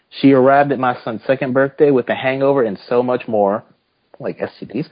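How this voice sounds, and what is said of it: Put-on accent. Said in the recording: “Can we not talk in this accent?”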